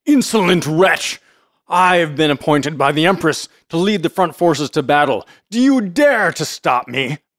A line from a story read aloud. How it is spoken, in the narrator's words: Hako's anger was kindled, he cried